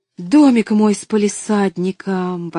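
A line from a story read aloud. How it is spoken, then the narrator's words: Exclaimed. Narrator (Russian): воскликнула она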